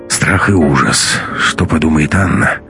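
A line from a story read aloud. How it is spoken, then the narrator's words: Sighing. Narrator (Russian): вздохнул Матвей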